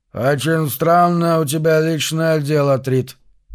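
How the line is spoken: Creaky voice. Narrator (Russian): проскрипел он

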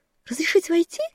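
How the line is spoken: Squeaky girl's voice. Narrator (Russian): пропищал девчачий голосок

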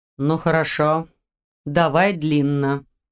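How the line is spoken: Tired, swordsman. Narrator (Russian): сказал мечник мрака устало

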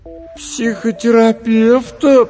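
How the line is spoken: Drawled. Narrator (Russian): протянула Маша

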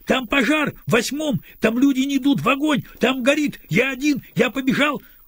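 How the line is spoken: Shouted while running. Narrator (Russian): Крикнул он уже на бегу

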